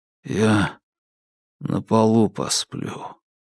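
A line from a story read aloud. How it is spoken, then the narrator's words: Muffled, dull. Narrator (Russian): глухо сказал Игорь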